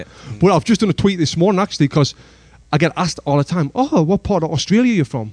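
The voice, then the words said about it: Northern English accent. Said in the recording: “Especially where we're from.... from the north of England... I've never had one person say, you're from Sunderland.”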